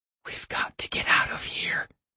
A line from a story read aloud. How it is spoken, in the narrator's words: she whispered